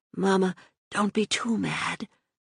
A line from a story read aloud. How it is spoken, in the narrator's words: she whispered